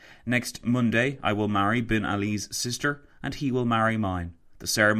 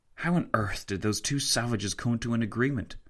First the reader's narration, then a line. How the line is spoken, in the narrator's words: Tancred whispered to Fitzwilliam